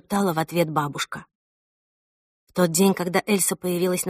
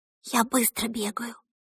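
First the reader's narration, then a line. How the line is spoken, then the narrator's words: Whisper. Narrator (Russian): прошептала Эльса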